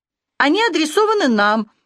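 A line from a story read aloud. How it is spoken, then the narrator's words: Astonished exclamation. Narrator (Russian): изумленно воскликнула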